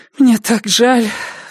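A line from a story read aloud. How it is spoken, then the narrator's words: Sighing. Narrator (Russian): вздохнула она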